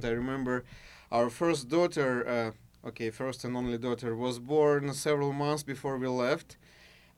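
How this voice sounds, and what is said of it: Mild Russian accent. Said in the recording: “does have somewhat of an accent ... you're from Russia, right?”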